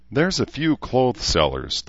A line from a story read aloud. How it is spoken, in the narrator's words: the woman said with a sigh